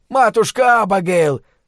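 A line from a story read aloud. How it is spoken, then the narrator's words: Shouting over engines. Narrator (Russian): прокричал Дик, перекрывая рев моторов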